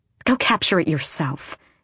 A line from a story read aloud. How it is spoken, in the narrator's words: she snapped